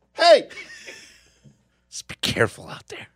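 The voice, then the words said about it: Imitates another person's voice. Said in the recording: “Fez impersonation. the master of impersonations.”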